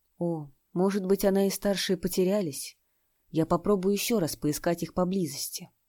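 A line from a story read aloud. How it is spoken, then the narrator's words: Disappointed sigh. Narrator (Russian): Джоан Нанси разочарованно вздохнул и сказал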